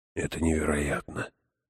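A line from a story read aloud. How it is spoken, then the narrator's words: Whispered. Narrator (Russian): прошептал он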